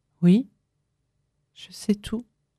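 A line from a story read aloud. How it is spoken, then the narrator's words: Plain. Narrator (French): dit-elle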